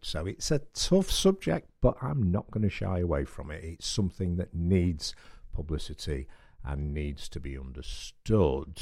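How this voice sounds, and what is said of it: Voice deeper than usual. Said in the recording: “my voice is a little deeper today. It was significantly deeper yesterday ... they've made my voice deeper ... it was a bit self-inflicted”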